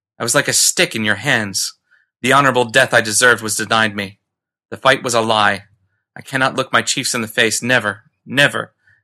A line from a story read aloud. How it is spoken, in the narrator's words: he cried bitterly